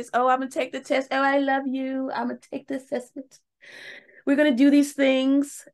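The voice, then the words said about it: Put-on English accent. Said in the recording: “I don't know where my English accent came from.”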